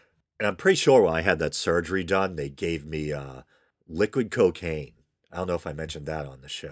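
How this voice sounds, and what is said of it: Usual voice. Nothing is said of it.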